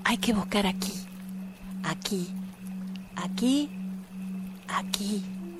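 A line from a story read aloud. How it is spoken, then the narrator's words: Tiny voice, ant. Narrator (Spanish): la hormiga, le dijo con su voz minúscula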